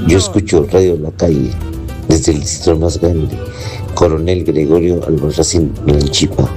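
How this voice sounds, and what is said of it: Hoarse, weak voice. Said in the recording (Spanish): “Con esta voz que estoy afónico”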